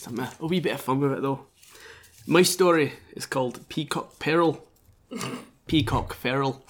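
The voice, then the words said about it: Put-on accent. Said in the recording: “I'm actually going to drop the accent now.”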